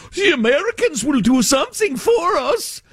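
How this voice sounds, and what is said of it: Vague mixed European accent. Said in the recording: “that European, just kind of vaguely European accent, just kind of a combo.”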